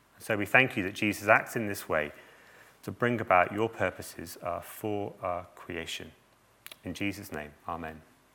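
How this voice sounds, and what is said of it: Voice sounds off from a cold. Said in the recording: “sorry my voice is a bit funny, but it's what a cold does to you”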